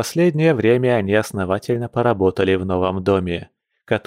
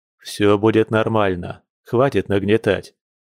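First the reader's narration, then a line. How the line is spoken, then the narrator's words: Deep sigh, quiet. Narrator (Russian): Дима глубоко вздохнул и тихо произнес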